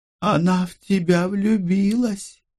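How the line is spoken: Solemn secretive whisper. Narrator (Russian): Очень торжественно, как будто выдавая великую тайну, шепотом сообщила мне Гелла

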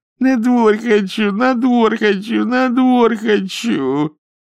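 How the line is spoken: Whiny, childlike. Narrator (Russian): заныл, и сказал капризным голосом, как ребенок

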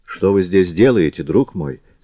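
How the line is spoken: Plain. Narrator (Russian): спросила она

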